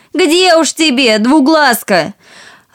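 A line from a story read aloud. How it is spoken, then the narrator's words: Shouting voices. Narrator (Russian): Сестры закричали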